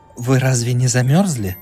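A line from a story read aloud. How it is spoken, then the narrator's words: Gentle surprised tone. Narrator (Russian): ласково удивилась она по-немецки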